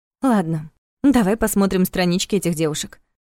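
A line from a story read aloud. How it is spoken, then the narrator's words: Sigh. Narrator (Russian): вздохнула она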